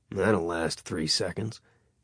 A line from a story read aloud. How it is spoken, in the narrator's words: Grimm said under his breath